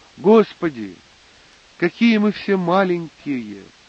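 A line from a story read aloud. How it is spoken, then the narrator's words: Odd author exclaiming. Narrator (Russian): воскликнул странный автор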